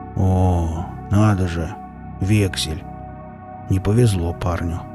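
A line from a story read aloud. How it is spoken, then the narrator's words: Muttering. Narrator (Russian): пробормотал Велес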